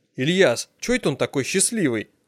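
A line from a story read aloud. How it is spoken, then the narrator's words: Quiet question. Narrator (Russian): спросил тихонько я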